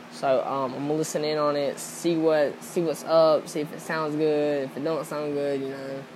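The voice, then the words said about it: Strong Southern American accent. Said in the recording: “I have a very southern accent,”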